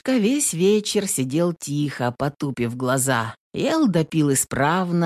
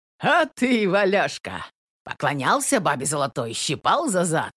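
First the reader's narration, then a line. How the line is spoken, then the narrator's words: Drunken laughter. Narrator (Russian): Захохотал изрядно подпивший Егор Корыло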